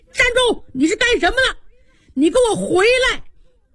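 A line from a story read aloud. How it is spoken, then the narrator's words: Shout from outside. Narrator (Chinese): 就听外边喊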